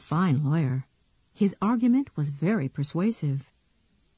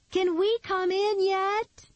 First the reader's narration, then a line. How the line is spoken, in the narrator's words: Nikki shouted from the other side